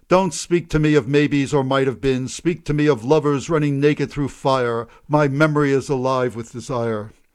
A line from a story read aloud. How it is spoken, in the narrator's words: Green, grinning at her third floor window, cried sharply